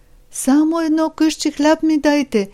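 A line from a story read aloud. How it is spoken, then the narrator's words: Crying. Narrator (Bulgarian): проплакал разбойникът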